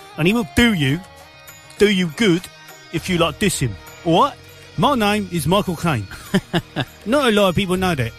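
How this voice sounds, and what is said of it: Put-on London Cockney accent. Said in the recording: “He's got a London accent. Talks like this.”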